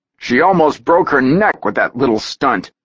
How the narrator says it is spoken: Saber snapped out

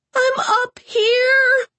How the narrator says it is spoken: Sarah screamed

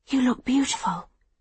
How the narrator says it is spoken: Livy whispers

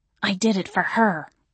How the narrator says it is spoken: he hissed

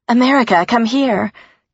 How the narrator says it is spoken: Chris said urgently

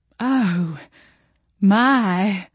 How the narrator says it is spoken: Jolene sighed

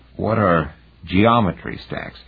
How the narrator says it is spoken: Heinemann asked, his voice froggy

